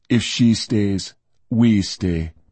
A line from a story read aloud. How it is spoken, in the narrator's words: Dagus said flatly